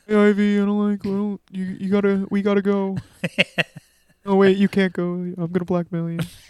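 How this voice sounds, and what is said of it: Imitates another person's voice. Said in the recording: “very clearly Blake Lively doing a voice ... That's pretty good ... It's pretty good ... Lively doing an impression of herself”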